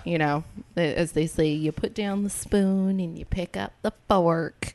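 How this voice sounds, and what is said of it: Put-on accent. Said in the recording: “why you did that accent”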